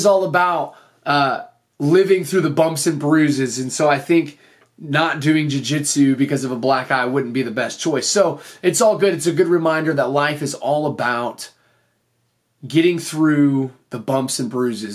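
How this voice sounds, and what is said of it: Slightly hoarse, strained voice. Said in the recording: “my voice is a little bit off this episode ... I completely lost my voice. My voice was shot”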